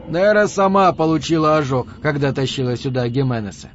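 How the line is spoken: Plain. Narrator (Russian): сказал Да Силва

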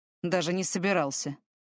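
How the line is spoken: Grumbling mutter. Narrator (Russian): пробурчал Фортем

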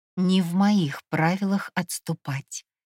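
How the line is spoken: Quiet warning. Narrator (Russian): предупредила я тихо

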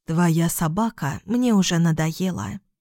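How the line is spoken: Plain. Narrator (Russian): сказала Гало

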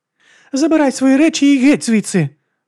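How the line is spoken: Tearful choking shout. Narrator (Ukrainian): задихаючись від сліз, крикнула Брігіта

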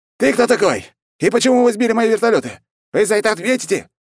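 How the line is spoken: Shrill voice. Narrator (Russian): Визгливо начал граф

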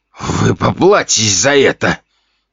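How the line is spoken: Attempted threat. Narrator (Russian): Пытался он угрожать

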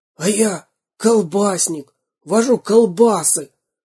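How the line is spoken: Hoarse whisper. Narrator (Russian): хриплым шепотом сказал четвертый

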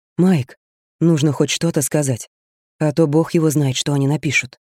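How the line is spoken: Whisper. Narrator (Russian): Дэйв прошептал

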